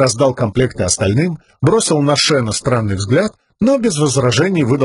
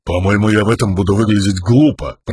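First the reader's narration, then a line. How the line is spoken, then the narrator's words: Grumbling. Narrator (Russian): проворчал Мош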